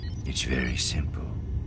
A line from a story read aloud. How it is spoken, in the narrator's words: Thrawn said quietly